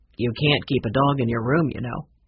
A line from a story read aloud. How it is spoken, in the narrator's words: the manager said